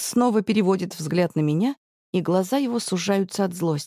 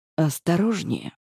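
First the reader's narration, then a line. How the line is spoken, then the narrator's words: Quiet, steely voice. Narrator (Russian): Тихо говорит Глеб, и в голосе его появляется металл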